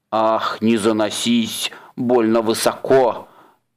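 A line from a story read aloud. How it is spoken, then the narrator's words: Angry troll hiss. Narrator (Russian): Сердито прошипел тролль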